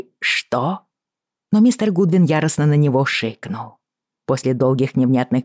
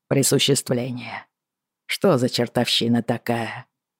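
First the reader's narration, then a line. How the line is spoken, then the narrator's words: Muttered. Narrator (Russian): пробормотал он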